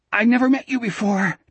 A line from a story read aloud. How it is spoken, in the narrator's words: Jack gasped